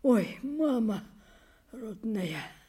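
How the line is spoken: Sighing whisper. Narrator (Russian): вздохнула и шепотом

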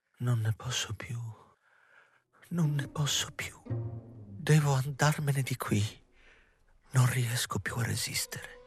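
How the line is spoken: Muffled murmur into hands. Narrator (Italian): Nicoletta mormorò tra le mani

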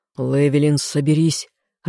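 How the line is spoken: Growl. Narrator (Russian): рыкнул он

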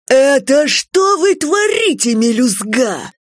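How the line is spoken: Loud bark. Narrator (Russian): Грэдди со всей силы рявкнул

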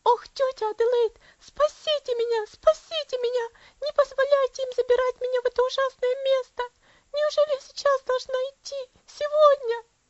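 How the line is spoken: Child shrieking. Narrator (Russian): Девочка завизжала

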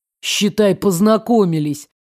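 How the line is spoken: Displeased summing up. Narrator (Russian): подытожил недовольным голосом Арс

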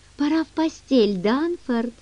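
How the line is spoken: Sleepy, smiling. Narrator (Russian): Он сонно улыбнулся

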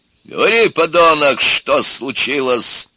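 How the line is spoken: Barked. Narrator (Russian): рявкнул

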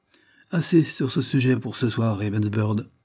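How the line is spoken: Curt reply. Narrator (French): répondit sèchement Lord Dane

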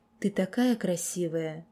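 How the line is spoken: Hoarse moan. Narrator (Russian): хриплый стон

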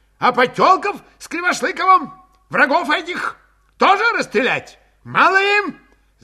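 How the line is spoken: Heated shout, old man. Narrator (Russian): Запальчиво крикнул плотный престарелый казак

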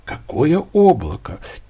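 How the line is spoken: Quiet. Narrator (Russian): тихо сказал Алька

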